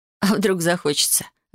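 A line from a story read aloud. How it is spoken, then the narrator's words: Laughing with soft groan. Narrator (Russian): Рассмеялась я с тихим стоном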